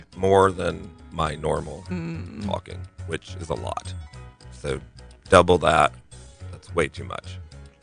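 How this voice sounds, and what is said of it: Deep raw morning voice. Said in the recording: “Morning voice and all... he has morning voice... my Lou Rawls voice... my voice is paying for it... Raw... Like a baritone”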